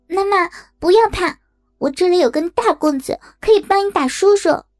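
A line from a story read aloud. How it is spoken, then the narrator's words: Loud shouting. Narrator (Chinese): 大声的喊着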